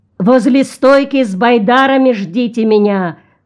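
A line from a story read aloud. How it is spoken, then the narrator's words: Shouted. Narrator (Russian): крикнул Джон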